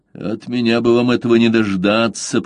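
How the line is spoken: Bitter grumble through teeth. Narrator (Russian): проворчал сквозь зубы желчный капитан

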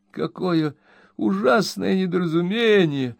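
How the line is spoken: Dismayed exclamation. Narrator (Russian): воскликнул мистер Пиквик, хватаясь за голову

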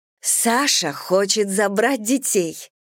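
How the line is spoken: Joyful announcement. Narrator (Russian): радостно сообщала мне Майка

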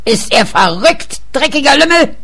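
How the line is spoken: Screamed at someone. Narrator (German): schrie er ihn an

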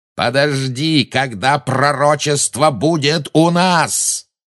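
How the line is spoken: Roaring. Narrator (Russian): взревел Малфой

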